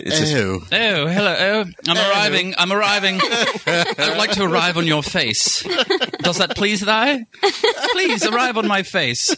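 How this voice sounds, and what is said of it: Exaggerated put-on English accent. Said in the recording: “English porn ... with the English accent”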